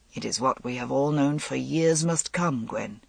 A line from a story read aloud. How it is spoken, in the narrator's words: he said quietly